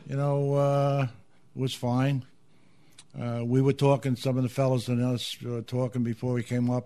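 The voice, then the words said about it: Midwest American accent. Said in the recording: “I'd have thought you were from the Midwest with that ... Midwest accent”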